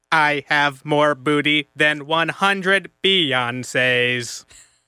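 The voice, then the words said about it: Robot voice. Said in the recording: “accent ... Robot or computer? ... A robot. ... He's a robot.”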